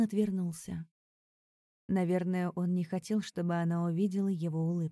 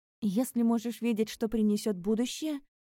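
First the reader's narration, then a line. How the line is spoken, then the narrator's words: Sharp objection. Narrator (Russian): резко возразила она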